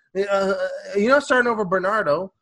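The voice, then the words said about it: Put-on Portuguese accent. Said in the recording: “I want to say his name funny ... His name funny, like in the Portuguese accent.”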